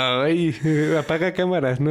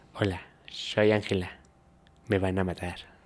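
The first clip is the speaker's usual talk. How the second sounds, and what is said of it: Imperfect Spanish accent. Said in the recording (Spanish): “acento no fue perfecto, tu acento español”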